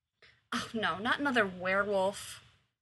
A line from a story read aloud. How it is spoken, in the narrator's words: muttered Rose